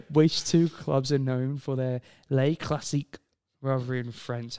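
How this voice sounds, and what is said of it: Put-on French accent. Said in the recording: “That was a French accent, wasn't it?”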